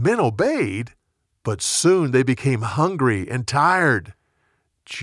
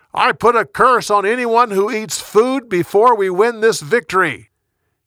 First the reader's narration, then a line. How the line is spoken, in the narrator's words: Saul wanted his men to completely focus on winning the battle, so he shouted